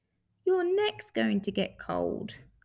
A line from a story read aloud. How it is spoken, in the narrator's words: sighed Little Bear